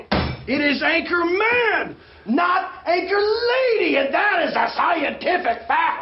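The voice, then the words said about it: Yelling. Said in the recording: “we're yelling”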